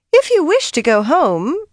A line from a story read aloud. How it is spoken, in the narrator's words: she announced in that surprisingly high voice